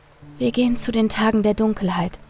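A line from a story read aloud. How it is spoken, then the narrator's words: Calm answer. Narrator (German): antwortete mit ruhiger Stimme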